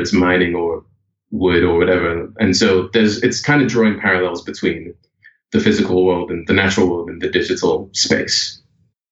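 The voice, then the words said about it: British accent. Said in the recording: “I'm certainly picked up on the British accent throughout kind of the entire,”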